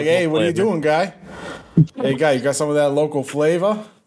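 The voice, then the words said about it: Put-on Boston accent. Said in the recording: “my Boston accent ... Could have had local flavor”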